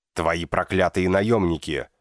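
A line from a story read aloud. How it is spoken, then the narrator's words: Sudden barking shout. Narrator (Russian): внезапно рявкнул Август Капенбург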